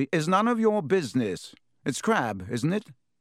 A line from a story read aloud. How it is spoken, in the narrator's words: he said stiffly